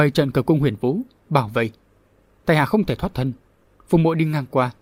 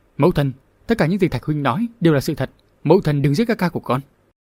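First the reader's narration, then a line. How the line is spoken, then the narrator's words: Anxious pleading voice. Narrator (Vietnamese): Nóng lòng vì sợ Hoa Tiên Nương hạ sát Đường Bảo Thạch, Phùng Tố Tố lên tiếng với giọng thiết tha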